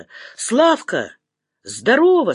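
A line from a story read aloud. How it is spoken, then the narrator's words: Plain. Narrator (Russian): сказал он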